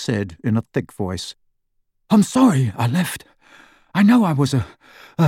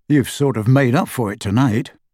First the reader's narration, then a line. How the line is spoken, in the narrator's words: said Harry